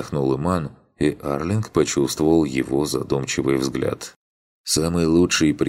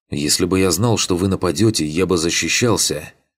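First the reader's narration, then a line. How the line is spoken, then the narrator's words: Snapped retort. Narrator (Russian): огрызнулся Ригарди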